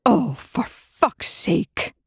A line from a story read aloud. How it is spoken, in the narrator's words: Rush hissed